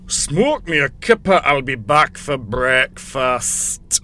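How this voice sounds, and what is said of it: Good Scottish accent, Rimmer impression. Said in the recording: “it's a good Scottish accent... You got the accent right... It was Rimmer from Red Dwarf.”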